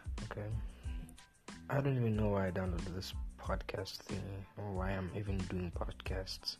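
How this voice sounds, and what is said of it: South African accent. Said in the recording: “a South African accent, for those who don't know, it's a South African accent”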